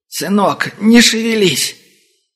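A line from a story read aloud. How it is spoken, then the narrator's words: Weak hoarse wheeze. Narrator (Russian): Собрав последние силы таксист прохрипел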